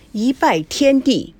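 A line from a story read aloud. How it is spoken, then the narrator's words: Drawn-out loud proclamation. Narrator (Chinese): 司仪拖长了声音，大声的宣誓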